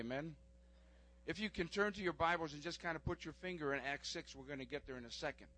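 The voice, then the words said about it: Polish, south side Chicago accent. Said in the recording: “It may sound with a Polish accent, south side of Chicago”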